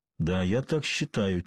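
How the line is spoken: Quiet reply. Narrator (Russian): тихо ответил Пуаро

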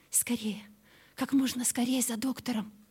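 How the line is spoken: Countess's whispered order. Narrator (Russian): распорядилась шепотом графиня

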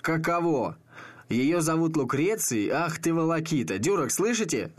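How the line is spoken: Shouting out a window. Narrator (Russian): закричал в окно

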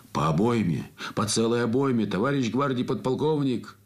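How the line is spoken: Group shouting. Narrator (Russian): закричали танкисты

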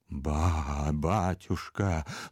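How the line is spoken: Convulsive whisper. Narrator (Russian): судорожно прошептал Иона

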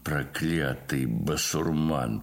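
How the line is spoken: Grumbling. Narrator (Russian): проворчал Спицын

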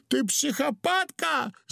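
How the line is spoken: Shrieking. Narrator (Russian): завопил Удалов

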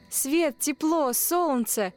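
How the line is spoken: Exclaiming. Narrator (Russian): воскликнул мотылек

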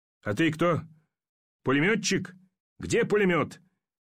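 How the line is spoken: Angry shouting. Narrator (Russian): закричал Ермаков на солдата

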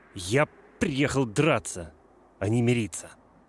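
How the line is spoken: Muffled and angry. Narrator (Russian): Грант перебил меня, сказав глухо и зло

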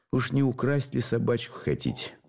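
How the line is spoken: Plain. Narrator (Russian): Спросил я

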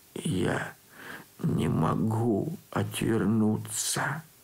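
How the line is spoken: Hunted whisper. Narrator (Russian): отвечал затравленным шепотом

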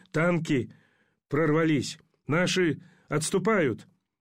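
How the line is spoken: Delirious soldier's croak. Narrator (Russian): Солдат в беспамятстве прохрипел

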